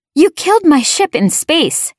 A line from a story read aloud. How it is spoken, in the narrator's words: I shouted at her